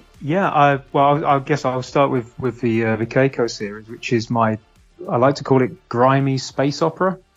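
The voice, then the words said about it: British accent. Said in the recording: “I'm British. You might have guessed that from the accent.”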